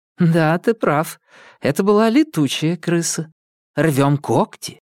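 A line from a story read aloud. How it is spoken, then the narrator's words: Nervous giggle. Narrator (Russian): Томас нервно хихикнул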